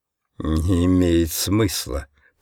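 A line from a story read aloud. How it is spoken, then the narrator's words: Muttering. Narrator (Russian): пробормотал он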